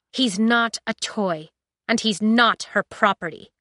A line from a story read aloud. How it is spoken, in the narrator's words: she said